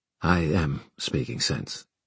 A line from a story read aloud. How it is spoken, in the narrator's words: Kieran said softly